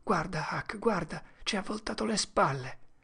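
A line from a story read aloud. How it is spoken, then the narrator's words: Whispered. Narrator (Italian): Tom sussurrò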